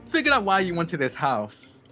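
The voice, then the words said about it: Yelling loudly. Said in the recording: “I'm just like as if I'm yelling over the sound of jackhammers.”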